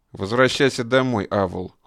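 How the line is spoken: Cold command. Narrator (Russian): холодно приказал он

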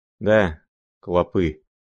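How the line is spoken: Reply with heavy sigh. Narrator (Russian): отвечал он, тяжело вздохнув

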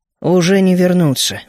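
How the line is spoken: Grumbled. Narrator (Russian): буркнул я

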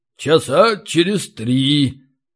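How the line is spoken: Thoughtful reply. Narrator (Russian): задумчиво ответил Ори

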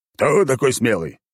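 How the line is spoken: Barked. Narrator (Russian): рявкнул генерал

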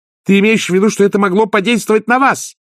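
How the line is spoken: Shouting. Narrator (Russian): крикнула Агнесса

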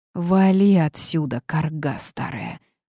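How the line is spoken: Hissed, young woman. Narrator (Russian): прошипела девушка

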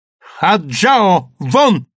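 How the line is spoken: Commanding shout. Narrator (Russian): повелительно крикнула она

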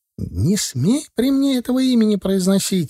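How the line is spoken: Shrieked. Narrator (Russian): взвизгнула Оксана

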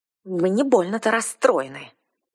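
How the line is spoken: Too sharp, blurted. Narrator (Russian): Излишне резко вырвалась у меня

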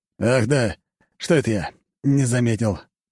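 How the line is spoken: Breathy. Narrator (Russian): выдохнул

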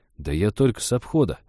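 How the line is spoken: Confused mumble. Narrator (Russian): растерянно пробормотал лесник

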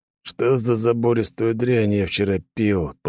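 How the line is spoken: Croaked hoarsely. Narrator (Russian): прохрипел Белмар

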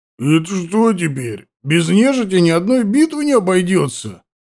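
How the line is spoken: Childishly hurt, huge man. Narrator (Russian): Так по-детски обиженно спросил Таймор, что это совсем не сочеталось с его огромной фигурой

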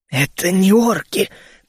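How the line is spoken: Hoarse rasp. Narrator (Russian): прохрипел он

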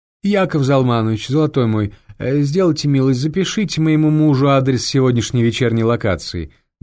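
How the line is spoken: Loud polite request. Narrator (Russian): громко обратилась Клара к ассистенту

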